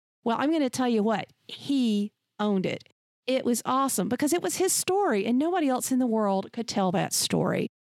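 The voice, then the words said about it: Southern American accent. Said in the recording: “you sound like Holly Hunter. You need to get rid of your accent... My accent is me... that's a Southern colloquialism. And I'm from the South in America”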